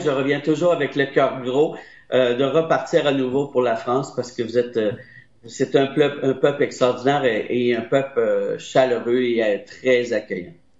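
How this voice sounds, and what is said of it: Speaks with a distinct accent. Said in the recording (French): “j'adore l'accent ... Elle adore votre accent.”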